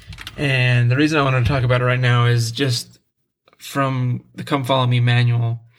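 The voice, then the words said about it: Sick voice going in and out. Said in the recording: “Excuse my voice. I have a little bit of a cold still just lingering. So my voice is going in and out.”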